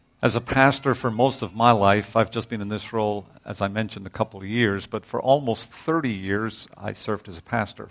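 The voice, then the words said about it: Northern Irish accent. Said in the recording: “Some of you are hearing the accent ... that doesn't sound like a Dillsburg accent ... from Northern Ireland originally”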